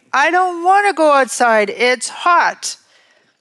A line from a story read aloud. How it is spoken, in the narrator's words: The child says loudly